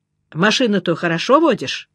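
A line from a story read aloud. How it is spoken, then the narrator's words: Plain. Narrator (Russian): спросил меня Горбун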